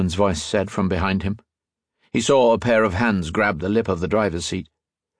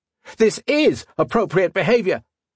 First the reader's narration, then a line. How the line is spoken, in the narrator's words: shouted